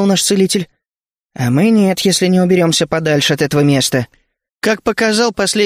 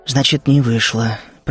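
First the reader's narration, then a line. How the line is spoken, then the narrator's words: Muttered. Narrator (Russian): пробормотал я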